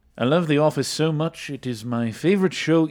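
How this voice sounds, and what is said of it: Put-on accent that keeps changing. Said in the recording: “I feel like I need to read the review in that voice now ... Your accent, like, keeps changing.”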